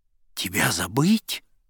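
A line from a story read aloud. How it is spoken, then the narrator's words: Exclaimed. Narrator (Russian): воскликнул я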